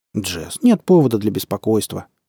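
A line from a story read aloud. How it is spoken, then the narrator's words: Calm. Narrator (Russian): спокойно произнес Дэвид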